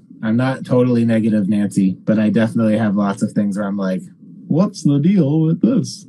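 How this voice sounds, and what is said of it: Half-committed impression of another person's voice. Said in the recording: “Is that your Jerry Seinfeld impression? ... It was half. Yeah. I like slightly committed to it. ... you're like 4% committed. ... I got the words right. ... It was just the words.”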